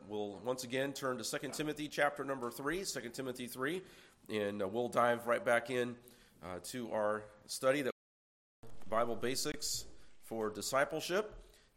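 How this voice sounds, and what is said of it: Congested, slightly nasal voice. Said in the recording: “I am fighting a little bit of a cold, as you can probably tell in my voice ... I apologize for a little bit of a nasal sound”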